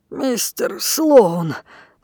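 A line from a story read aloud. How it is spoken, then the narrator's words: Labored wheeze. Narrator (Russian): с трудом прохрипел Финиас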